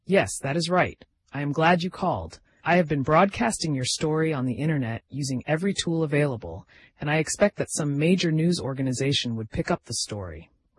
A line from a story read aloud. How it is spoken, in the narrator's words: replied John